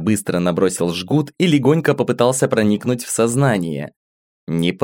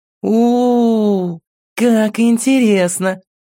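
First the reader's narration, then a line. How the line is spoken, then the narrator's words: Drawn-out drawl. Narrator (Russian): Протянула она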